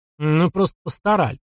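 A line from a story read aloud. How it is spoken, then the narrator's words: Gloomy snort, young man. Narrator (Russian): мрачно хмыкнул парень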